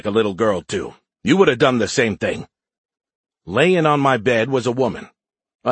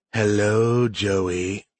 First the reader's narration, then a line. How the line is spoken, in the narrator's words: she said in a sultry voice